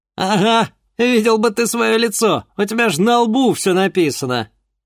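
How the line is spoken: Ringing laughter. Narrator (Russian): Заливисто рассмеялся Андрей

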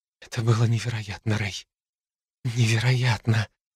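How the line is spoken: Stunned mumbling. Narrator (Russian): забормотала Хлоя в потрясении

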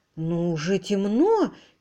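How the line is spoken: Uncertain reply. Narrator (Russian): неуверенно отозвалась Лора

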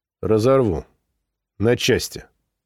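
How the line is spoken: Quiet. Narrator (Russian): тихо сказал я

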